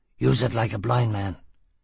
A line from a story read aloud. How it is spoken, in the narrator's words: he grunted